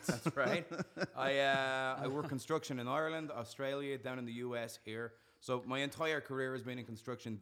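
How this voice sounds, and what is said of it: Irish accent. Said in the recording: “you can tell by my funny accent, I'm Irish”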